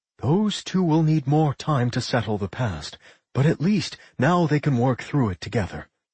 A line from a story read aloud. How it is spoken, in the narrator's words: Mary sighed